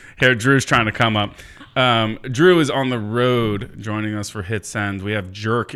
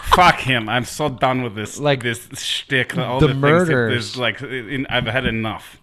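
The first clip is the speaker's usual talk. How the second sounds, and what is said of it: Put-on Russian accent. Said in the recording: “why is your Russian accent so good? ... I thought that was a bad one. I phoned that one in.”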